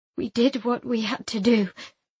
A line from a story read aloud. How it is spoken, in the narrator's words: I said shakily